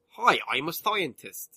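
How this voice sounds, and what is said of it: Put-on accent imitating an actor. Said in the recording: “that's the accent he'd put on ... That's very good ... That is the right city, though”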